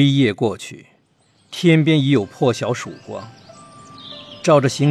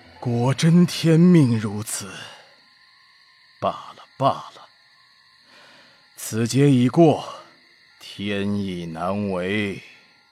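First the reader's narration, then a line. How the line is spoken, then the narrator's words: Long resigned sigh. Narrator (Chinese): 李淳风终于长叹一声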